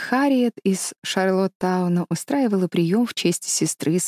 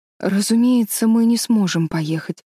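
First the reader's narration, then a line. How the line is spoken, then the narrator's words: Sad speech. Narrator (Russian): грустно сказала молодая бабушка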